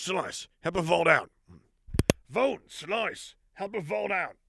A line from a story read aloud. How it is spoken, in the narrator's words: He shouted over his shoulder